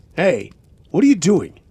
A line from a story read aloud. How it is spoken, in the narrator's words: he yelled again